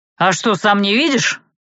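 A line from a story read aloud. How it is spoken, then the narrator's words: Snapped back. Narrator (Russian): огрызнулся магистр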